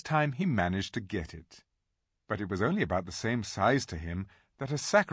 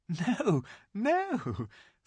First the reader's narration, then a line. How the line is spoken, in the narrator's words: said Lucy, laughing